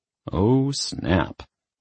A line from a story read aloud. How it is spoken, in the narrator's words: Chris couldn't help but murmur